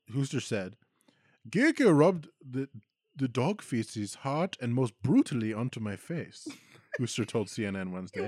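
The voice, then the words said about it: Put-on German accent. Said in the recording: “the way that this woman talks is the most fucking German. I'm going to do it in the accent because it doesn't work in an American accent.”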